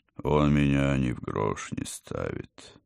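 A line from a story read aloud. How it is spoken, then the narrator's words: Sad. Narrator (Russian): печально доктор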